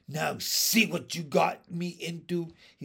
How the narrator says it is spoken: he said crossly

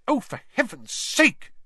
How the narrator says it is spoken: she snapped

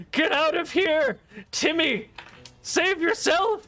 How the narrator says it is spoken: He shouts to the squire

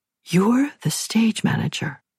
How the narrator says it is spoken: I whispered

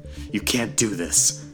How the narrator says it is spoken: said desperately

